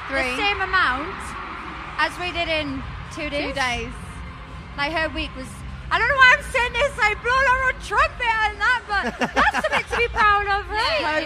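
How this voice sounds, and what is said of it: Geordie accent, hard to understand. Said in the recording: “The next accent is probably my favourite British accent, because it is so, I think, unlike any other accent and difficult to understand. Oh my goodness, the Geordie accent. So this accent is spoken by people in and around the city of Newcastle.”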